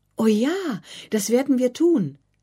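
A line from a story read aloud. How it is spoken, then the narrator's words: Delighted call. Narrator (German): rief Anna nun erfreut über diesen Vorschlag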